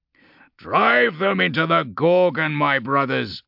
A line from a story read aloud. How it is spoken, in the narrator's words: he bellowed